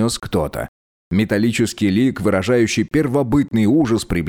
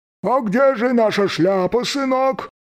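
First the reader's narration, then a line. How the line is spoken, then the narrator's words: Cheerful voice, muffled by metal. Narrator (Russian): спросил бодрый голос, звучащий непривычно глухо из-за металлической скорлупы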